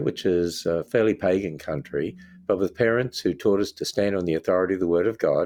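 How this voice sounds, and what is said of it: Australian accent. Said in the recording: “hopefully you can tell from my accent, I'm from Australia”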